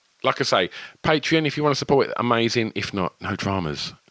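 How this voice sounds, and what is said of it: Essex accent with a lisp. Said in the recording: “some very average Essex-sounding lispy twang”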